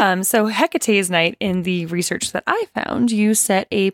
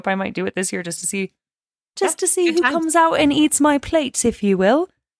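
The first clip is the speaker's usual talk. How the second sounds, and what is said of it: Bad put-on British accent. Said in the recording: “I have a terrible British accent”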